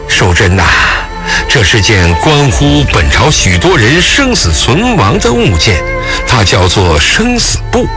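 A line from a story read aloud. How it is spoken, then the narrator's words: Deep, sinister voice. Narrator (Chinese): 周良坤面露诡异的笑容，沉声道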